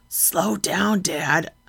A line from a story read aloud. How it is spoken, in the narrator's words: hissed through my bridal smile